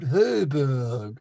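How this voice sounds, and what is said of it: Imitates another person's voice, pursed lips. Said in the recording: “Say it in the style of Brian Sewell. ... If I purse my lips to do the voice,”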